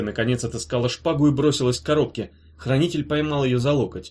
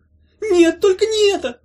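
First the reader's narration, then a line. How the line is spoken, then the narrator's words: Moaning. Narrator (Russian): застонала коробка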